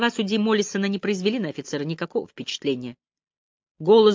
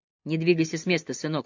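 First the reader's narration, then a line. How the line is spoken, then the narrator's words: Calm. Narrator (Russian): сказал я спокойно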